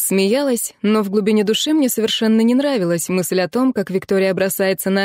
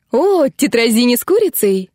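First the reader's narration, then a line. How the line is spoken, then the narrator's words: Laughing. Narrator (Russian): Я рассмеялась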